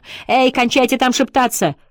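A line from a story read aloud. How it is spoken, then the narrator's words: Shout from another room. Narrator (Russian): крикнула из спальни миссис Оустлер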